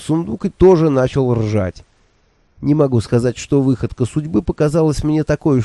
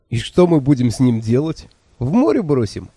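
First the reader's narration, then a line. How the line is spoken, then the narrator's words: Laughing question. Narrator (Russian): сквозь смех спросил я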